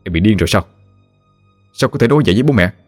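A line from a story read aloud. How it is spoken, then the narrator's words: Exasperated angry scolding. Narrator (Vietnamese): Việt nãy giờ không thể chịu đựng được nữa, liền lên tiếng quát vợ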